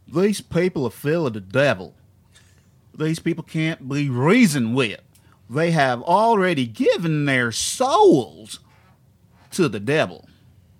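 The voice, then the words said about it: Exaggerated put-on Southern US accent. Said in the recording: “I'm just going to do a dumb Southern accent.”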